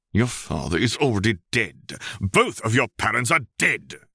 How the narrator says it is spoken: Severus snarled

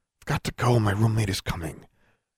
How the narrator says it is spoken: whispered

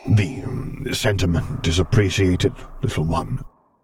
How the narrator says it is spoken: Vader rumbled hesitantly

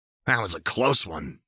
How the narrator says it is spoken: she muttered

